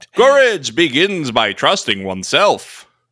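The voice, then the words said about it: Dramatic old-newsreel narrator voice. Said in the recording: “You got to do it in like the narrator voice... I can't do a World War II monotoned.”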